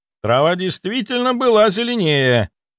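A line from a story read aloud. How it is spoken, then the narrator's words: Ghost, plain. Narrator (Russian): подтвердил призрак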